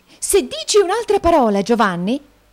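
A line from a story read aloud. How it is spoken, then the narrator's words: Shrieking. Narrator (Italian): strillò la signorina Price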